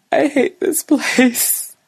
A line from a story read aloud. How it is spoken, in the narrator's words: gasped the words out between breath